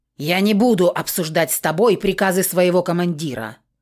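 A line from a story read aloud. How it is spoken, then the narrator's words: Barked. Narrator (Russian): гаркнул он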